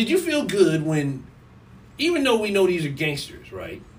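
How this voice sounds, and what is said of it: Usual voice. Nothing is said of it.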